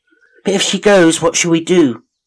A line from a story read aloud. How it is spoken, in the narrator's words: they cried in despair